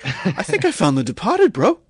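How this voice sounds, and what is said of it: Imitates another person's voice. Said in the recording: “My Mark Wahlberg impression is not great”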